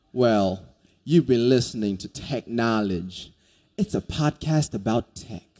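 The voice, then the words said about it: Put-on hillbilly accent. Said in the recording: “Let me do it with the hillbilly accent.”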